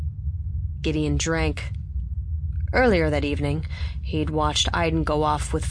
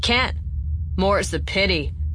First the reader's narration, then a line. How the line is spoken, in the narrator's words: Staven growled